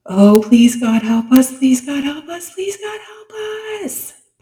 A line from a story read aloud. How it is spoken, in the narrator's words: Penny screamed